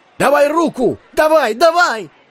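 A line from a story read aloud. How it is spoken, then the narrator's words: Crowd shouting. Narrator (Russian): закричали люди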